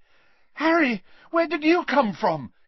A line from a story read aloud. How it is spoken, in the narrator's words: Ginny cried